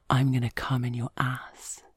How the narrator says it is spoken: he whispers in my ear

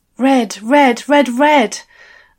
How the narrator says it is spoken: I gasped

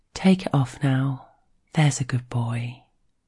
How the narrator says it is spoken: she says it softly in his ear

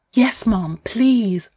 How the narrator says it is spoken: gasp

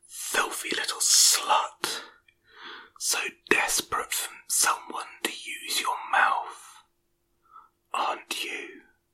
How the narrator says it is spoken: whispers in my ear

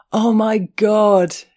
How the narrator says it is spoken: he howled

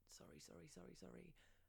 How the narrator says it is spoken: I mumbling

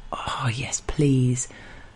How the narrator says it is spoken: breathe faster and murmur

